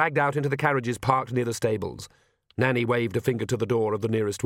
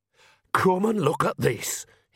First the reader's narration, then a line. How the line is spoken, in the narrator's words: hissed Nanny